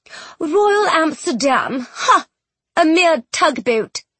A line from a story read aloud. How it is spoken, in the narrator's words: she scoffed